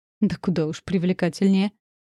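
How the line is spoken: Snorting. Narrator (Russian): хмыкнул Кариэль

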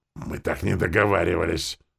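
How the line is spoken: Hissing from a distance. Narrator (Russian): начала шипеть она еще издали

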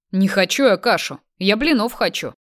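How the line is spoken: Offended voice. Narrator (Russian): обиженным голосом произнес Андрей

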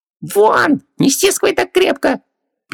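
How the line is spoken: Squeak of a half-choked genie. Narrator (Russian): пискнул полузадушенный джин

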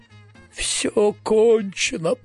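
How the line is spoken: Despairing groan. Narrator (Russian): простонал профессор Стего

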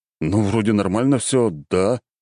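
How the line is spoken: Bewildered. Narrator (Russian): растерянно проговорил Александр

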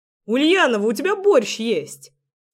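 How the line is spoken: Joyful shout from afar. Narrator (Russian): радостно воскликнул Артём из кухни

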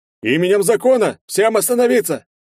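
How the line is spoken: Loud commanding order. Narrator (Russian): громко и властно приказал мэр

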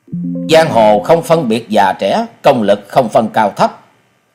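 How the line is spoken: Angry speech. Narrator (Vietnamese): Gã kiếm khách đi đầu giận dữ nói

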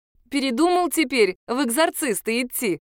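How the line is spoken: Laughing. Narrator (Russian): рассмеялась я

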